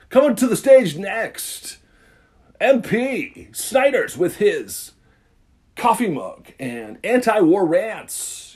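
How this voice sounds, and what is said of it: Strip club DJ announcer voice. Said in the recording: “I'm doing my stripper DJ voice.”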